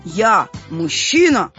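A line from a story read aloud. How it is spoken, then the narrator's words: Stern question, father. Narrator (Russian): строго спросил папа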